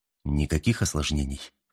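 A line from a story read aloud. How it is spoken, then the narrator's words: Low-voiced question. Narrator (Russian): вполголоса спросил капитан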